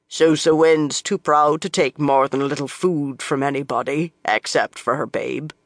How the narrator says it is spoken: she said, in a deep voice for a woman

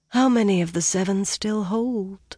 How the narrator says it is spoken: Mirel asked softly, as if speaking to herself

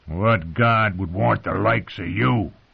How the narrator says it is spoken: growled Lem

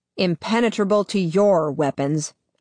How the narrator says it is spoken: Adam snaps

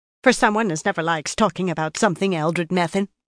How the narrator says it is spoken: another woman said sharply

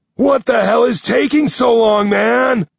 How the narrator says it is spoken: Nine shouts to me

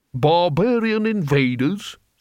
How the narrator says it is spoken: said the man haughtily

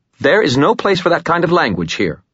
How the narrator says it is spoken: Murphy's mom snapped

